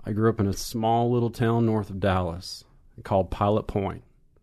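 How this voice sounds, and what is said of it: Texan accent. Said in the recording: “with your accent, it could have been anything. A pile of porn.”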